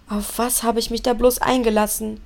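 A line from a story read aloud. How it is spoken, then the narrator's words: Groaned. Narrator (German): stöhnte Tim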